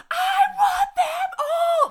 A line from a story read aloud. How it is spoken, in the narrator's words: her screaming